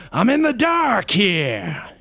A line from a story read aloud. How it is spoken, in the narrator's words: in a Cajun accent